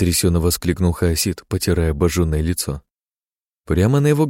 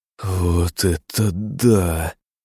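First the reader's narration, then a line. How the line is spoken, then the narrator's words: Amazed drawl. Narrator (Russian): протянул он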